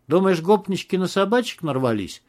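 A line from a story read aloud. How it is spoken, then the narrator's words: Cheerful grinning question. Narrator (Russian): спросил Макс, весело скались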